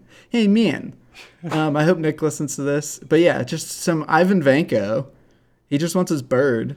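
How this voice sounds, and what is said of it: Usual voice. Nothing is said of it.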